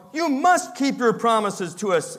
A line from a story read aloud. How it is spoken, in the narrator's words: exclaimed Dorothy